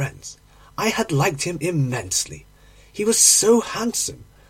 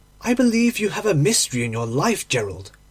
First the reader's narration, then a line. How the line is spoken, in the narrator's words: I exclaimed